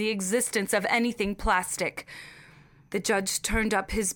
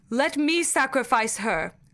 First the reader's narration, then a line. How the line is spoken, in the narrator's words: said